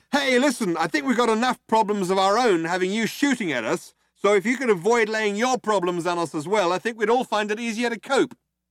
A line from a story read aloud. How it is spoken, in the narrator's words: Ford shouted out